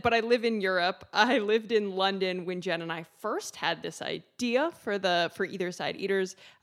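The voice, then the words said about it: American accent. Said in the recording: “So I'm American. I'm sure you can tell by my accent”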